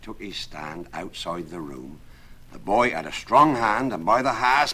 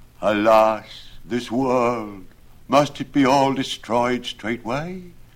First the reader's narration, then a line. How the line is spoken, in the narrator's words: produced a dreadful sigh and said